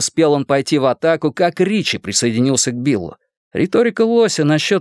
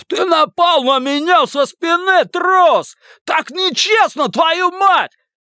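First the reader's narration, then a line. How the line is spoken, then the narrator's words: Roaring. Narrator (Russian): Лось проревев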